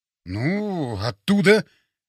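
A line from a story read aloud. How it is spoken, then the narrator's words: Uncertain mutter. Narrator (Russian): неуверенно пробормотал я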